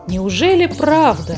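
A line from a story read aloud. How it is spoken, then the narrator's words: Exclaimed. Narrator (Russian): воскликнула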